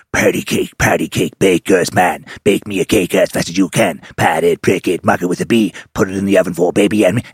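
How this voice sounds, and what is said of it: Scary demon singing voice. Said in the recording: “the demon does it in like a scary voice.”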